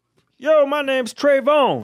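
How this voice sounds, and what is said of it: Put-on 1970s Black American voice. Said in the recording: “Do an ethnic voice. ... That does not sound like a black guy. ... Yes, it does. It's amazing. ... It's like a 70s black guy.”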